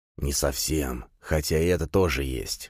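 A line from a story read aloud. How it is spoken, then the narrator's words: Hiss. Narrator (Russian): прошипел Пегасов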